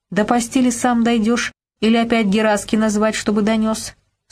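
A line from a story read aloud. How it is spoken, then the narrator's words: Plain. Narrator (Russian): спросила она Володьку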